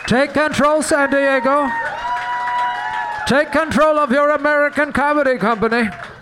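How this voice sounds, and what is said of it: Impression of the Legend gangster character. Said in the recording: “that your impression of that guy from Legend ... That was the gay one ... I'm the gay Bane.”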